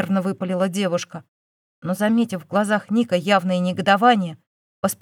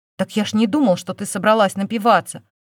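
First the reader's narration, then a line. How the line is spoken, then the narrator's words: Indignant retort. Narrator (Russian): возмущенно парировал он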